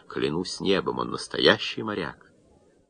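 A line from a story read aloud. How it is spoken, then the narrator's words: Blissful muttering. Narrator (Russian): матрос блаженно бормотал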